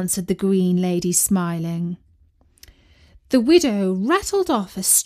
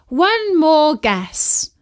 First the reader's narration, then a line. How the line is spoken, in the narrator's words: cried the widow